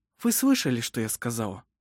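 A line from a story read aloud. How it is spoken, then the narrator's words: Soft. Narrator (Russian): мягко произнесла Элизабет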